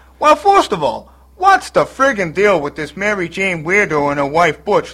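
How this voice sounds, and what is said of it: Brooklyn accent. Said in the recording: “you talk with a Brooklyn accent”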